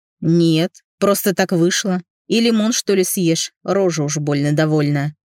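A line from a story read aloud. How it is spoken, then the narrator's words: Grumbling. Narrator (Russian): проворчал Антоха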